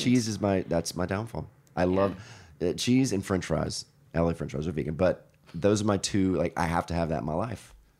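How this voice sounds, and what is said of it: Deeper, bassy voice from a cold. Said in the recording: “my voice is way more bassy than usual today. Of course, I catch a cold a few days ago ... I sound very bassy today”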